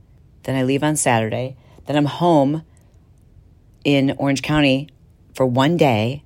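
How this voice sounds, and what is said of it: Hoarse, worn-out voice. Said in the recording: “my voice has gone too, because we were like just screaming”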